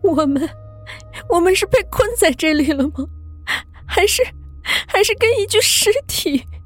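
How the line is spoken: Tearful, on verge of crying. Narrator (Chinese): 是真的要哭死了

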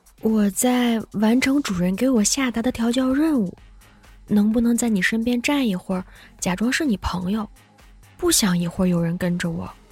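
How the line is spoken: Whispered in ear. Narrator (Chinese): 在我耳边小声说了一句

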